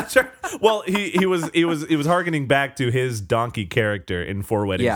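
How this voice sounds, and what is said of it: Usual voice. Nothing is said of it.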